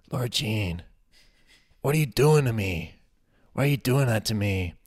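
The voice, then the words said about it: Sensual voice with slight New York accent. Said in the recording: “like a really weird Mark Ruffalo, very sensual in everything he says. Sometimes he has a little bit of like a, a New York accent.”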